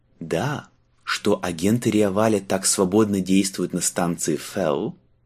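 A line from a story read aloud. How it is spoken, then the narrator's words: Purring. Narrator (Russian): промурлыкал Марк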